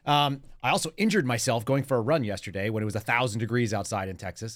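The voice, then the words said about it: Slightly gruff, rough voice. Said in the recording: “my voice sounds like it's going somewhere ... it just sounded a little gruffer”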